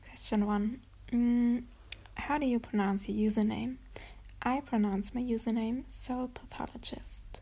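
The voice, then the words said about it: German accent in English. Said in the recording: “I get messages about my accent and questions about it ... I am from Germany”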